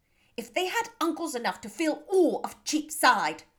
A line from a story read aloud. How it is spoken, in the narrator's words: cried Bingley